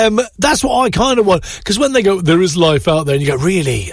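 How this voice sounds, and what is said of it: Usual voice. Nothing is said of it.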